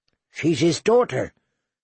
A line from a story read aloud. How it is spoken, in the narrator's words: Sam said feebly